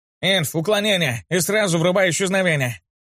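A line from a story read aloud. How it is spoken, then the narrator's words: Yelling. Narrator (Russian): завопил Краулер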